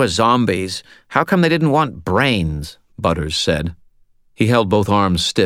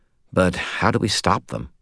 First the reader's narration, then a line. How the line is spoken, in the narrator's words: sighed